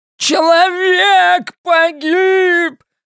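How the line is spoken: Strained yell, short man. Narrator (Russian): надсадно завопил низенький господин

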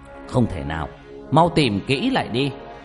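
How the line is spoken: Impatient loud shout. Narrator (Vietnamese): Ông ngoại Nhật sốt ruột quát lớn

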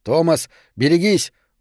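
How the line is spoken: Terrified shout. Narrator (Russian): в ужасе закричал Гаррисон

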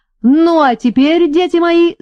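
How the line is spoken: Yelling at full voice. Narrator (Russian): заорал во всю глотку

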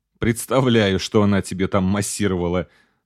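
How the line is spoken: Cheeky laughter. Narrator (Russian): нахально рассмеялся

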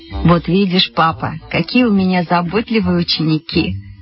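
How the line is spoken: Laughing. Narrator (Russian): засмеялась Вера Евстигнеевна

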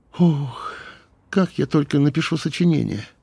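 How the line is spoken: Sigh. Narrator (Russian): вздохнула Юля

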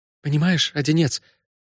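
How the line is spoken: Suddenly trembling voice. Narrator (Russian): сказала она неожиданно дрогнувшим голосом

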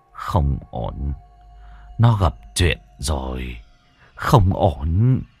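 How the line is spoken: Muttering, then sharp exhale. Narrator (Vietnamese): Sư cụ Thái Viên ... lẩm bẩm tính toán một hồi lâu rồi thở hắt ra

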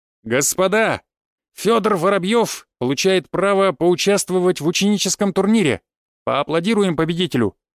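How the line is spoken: Loud announcement. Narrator (Russian): выкрикнул Крапивин

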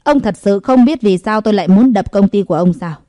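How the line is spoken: Thin, cold smile. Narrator (Vietnamese): Lục Trần cười nhạt nói

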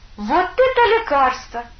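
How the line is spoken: Delighted exclamation, girl. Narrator (Russian): Не веря своим глазам, девушка с восторгом воскликнула

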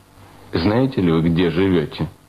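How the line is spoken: Stern question. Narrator (Russian): строго спросил его блюститель порядка

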